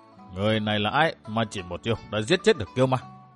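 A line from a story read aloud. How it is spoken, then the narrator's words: Puzzled muttering. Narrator (Vietnamese): Lam Khải Trường gõ trán lẩm bẩm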